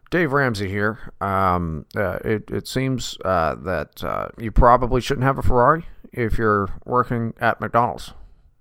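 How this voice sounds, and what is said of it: Imitates another person's voice, lacking southern twang. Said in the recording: “You need more of a southern twang. ... You've got the cadence down right.”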